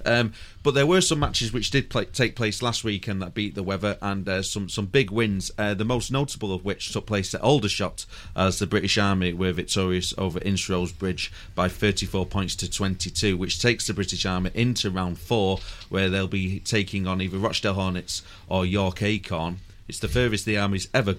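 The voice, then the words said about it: Mancunian English accent. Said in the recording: “in my Mancunian accent”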